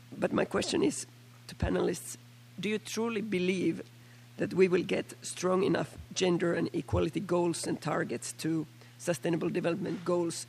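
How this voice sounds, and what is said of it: Hoarse, nearly lost voice from flu. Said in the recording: “excuse my voice, I'm having a flu, so I'm almost losing my voice.”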